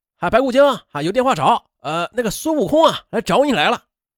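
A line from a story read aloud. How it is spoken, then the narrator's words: Shouting. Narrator (Chinese): 网吧的网管就喊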